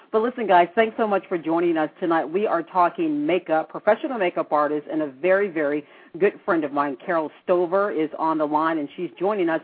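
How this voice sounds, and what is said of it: Scratchy, unusually deep voice. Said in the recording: “my throat sounds kind of scratchy and weird ... my voice is this deep, I sound like a man ... if my voice does sound weird”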